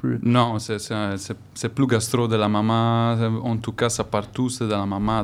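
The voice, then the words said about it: Non-native French accent. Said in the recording (French): “On mange en entendant ton accent. ... c'est pas ta langue maternelle”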